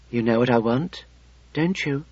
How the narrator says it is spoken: whispered

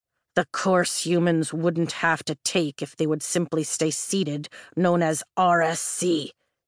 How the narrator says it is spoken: he growls with surprising frustration

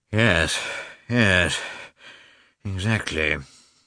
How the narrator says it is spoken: said Oblonsky, sighing

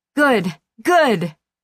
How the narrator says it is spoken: Josie roared, almost jubilant

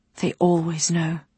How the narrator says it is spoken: Winamin spoke quietly

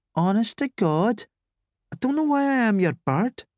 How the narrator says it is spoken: she moaned

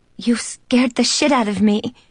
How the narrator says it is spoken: she exclaimed

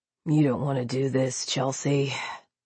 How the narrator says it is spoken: he sighed

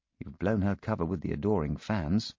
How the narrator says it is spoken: I whispered to Poirot

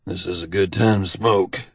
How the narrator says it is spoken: he mumbles

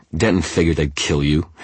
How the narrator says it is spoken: Harris spat

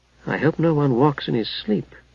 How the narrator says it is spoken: Haplo muttered to his besotted companion

